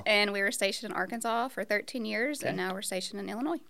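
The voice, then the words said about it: Slight Oklahoma accent. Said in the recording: “You can probably tell that I'm not from around here. I'm actually from Oklahoma. ... A little bit of an accent.”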